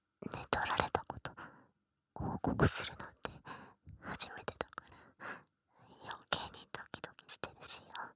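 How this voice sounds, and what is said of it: Whispering close to the ear. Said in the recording (Japanese): “いきなりささやかれてびっくりしたのか。…このまま耳元で”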